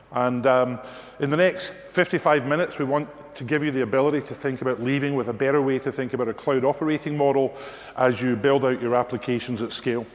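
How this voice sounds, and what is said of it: Scottish accent. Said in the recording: “my Scottish accent ... they say that we're unintelligible”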